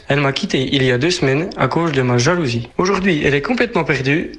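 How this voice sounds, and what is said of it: Franc-Comtois French accent, Swiss-like. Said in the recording (French): “C'est l'accent franc-comtois? ... l'accent de Franche-Comté. ... Un peu suisse, ouais, sur les bords. C'est un mélange entre le suisse et le belge.”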